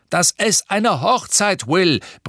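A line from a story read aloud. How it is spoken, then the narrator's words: Bellowing from another room. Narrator (German): brüllte Papa aus dem Badezimmer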